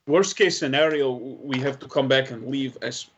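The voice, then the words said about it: Speaks in a put-on accent. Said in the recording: “that's a hard word to say in this accent.”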